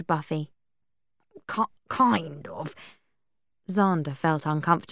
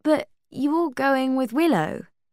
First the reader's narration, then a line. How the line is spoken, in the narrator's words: Buffy said